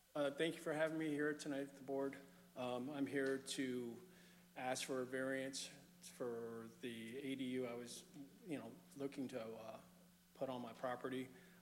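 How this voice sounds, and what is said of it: Slightly hoarse voice. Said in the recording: “I got a little hoarse throat.”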